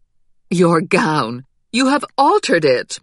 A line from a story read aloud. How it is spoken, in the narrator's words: Mama cried